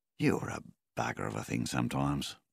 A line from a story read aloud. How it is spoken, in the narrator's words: Milvin said gently